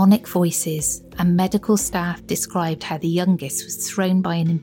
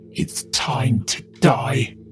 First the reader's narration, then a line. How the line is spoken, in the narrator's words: in a demonic voice